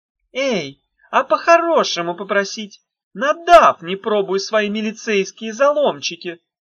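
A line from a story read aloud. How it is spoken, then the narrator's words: Witch's cheerful shout. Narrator (Russian): весело закричала ведьма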